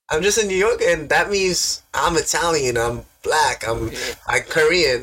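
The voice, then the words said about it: Queens New York accent. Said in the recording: “What's the most Queens thing about me? ... My accent.”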